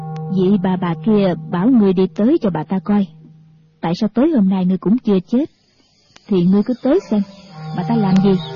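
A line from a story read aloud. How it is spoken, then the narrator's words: Cold. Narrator (Vietnamese): Diệt Tuyệt sư thái lạnh lùng nói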